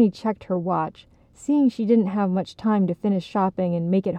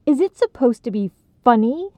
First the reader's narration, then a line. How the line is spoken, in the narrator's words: snapped